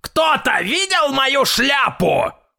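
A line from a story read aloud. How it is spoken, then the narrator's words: Loud shout, old man. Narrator (Russian): громко крикнул дедушка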